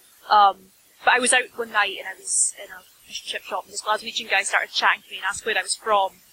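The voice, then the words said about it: Softened Scottish accent. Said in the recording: “My accent is sort of lessened because I moved to Edinburgh, and the Edinburgh Scottish accent's a lot more refined than where I'm from ... I'm not as Scottish as you”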